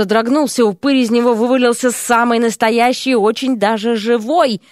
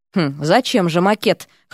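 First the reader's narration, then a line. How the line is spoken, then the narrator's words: Hmphing. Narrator (Russian): хмыкнул Эрик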